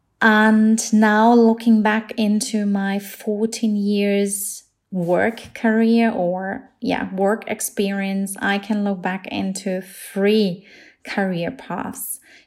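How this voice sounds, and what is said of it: German accent. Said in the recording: “I am from a small German village in Bavaria, as you can probably hear from my accent.”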